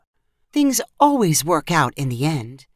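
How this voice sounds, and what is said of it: Calm, soothing voice. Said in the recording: “said Mrs. Claus in a calming voice.”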